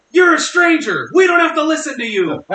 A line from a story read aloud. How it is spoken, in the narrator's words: my six-year-old daughter yelled back